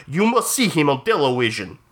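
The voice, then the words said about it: Put-on Russian accent. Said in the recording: “he's putting on that Russian accent to make it him seem more exotic”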